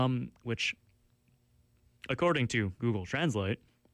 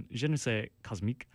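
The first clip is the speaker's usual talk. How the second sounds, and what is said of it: Terrible put-on French accent. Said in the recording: “you're about to hear my terrible French accent”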